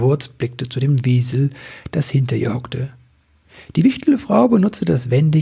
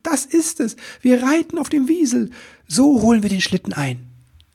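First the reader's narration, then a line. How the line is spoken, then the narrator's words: Enthusiastic shout. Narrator (German): rief er voller Begeisterung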